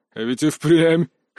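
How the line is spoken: Chuckle. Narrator (Russian): хохотнул мужчина

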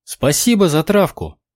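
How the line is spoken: Exclamation. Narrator (Russian): воскликнула Милана

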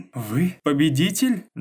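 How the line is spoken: Loud laughter. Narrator (Russian): Джой расхохоталась

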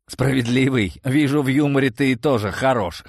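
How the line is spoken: Snorting remark. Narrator (Russian): хмыкнул я

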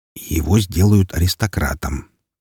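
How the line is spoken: Quiet. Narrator (Russian): также тихо произнес Роман

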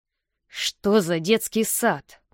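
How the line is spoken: Hiss. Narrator (Russian): прошипел он

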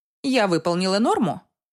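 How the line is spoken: Dry reply. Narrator (Russian): сухо отвечаю я

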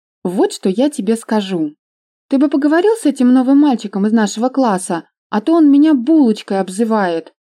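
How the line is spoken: Cheerful girlish chirping. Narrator (Russian): весело щебетала Надюша

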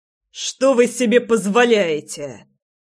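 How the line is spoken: Angry question. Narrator (Russian): зло спросил Жерар

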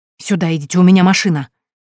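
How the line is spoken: Hurried whisper. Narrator (Russian): Торопливо зашептала она

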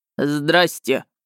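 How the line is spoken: Deep-voiced child. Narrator (Russian): пробасил малыш

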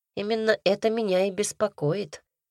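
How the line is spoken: Grumbling. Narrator (Russian): Пробурчала я

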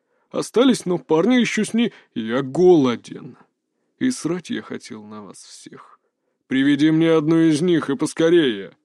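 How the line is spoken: Colder, menacing tone. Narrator (Russian): Еще более холодным и угрожающим тоном обратился к нему его хозяин

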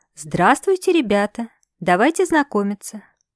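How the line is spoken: Cheerful. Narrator (Russian): бодро произнесла

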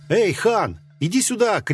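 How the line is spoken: Shouted from afar. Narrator (Russian): крикнул мне единственный мой друг здесь, с другого края плаца

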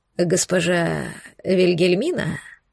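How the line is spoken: Creaky-voiced question. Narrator (Russian): поинтересовался он скрипучим голосом

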